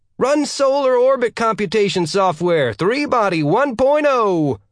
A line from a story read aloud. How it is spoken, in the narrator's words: Newton screamed at the top of his lungs